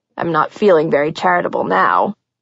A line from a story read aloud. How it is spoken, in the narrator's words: he said, his voice deepening with a gravelly edge